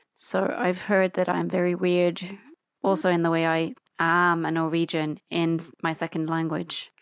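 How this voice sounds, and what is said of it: Norwegian hybrid accent in English. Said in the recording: “she's Norwegian. Why this strange hybrid, all sorts of influenced English accent? ... because I've lived in Australia”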